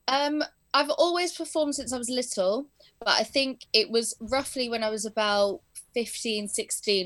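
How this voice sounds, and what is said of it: English accent. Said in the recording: “in English, my accent's pretty much the same from being around my parents' English school and the people around here”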